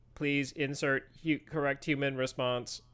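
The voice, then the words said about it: Robotic voice. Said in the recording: “like the Mark Zuckerberg robot”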